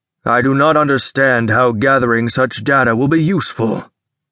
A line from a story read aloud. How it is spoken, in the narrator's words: Carr rumbled